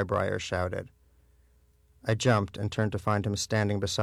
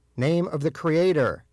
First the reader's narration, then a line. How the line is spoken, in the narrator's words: he shouted again